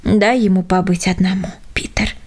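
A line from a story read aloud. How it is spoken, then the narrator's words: Postman's soft voice. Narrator (Russian): сказал почтальон мягко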